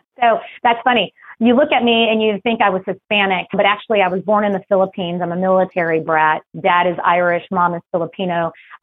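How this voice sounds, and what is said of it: Hard-to-place accent, very fast speech. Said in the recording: “I can't quite place the accent. ... I speak like I'm from New York because I speak very quickly. My accent, I don't know where it comes from”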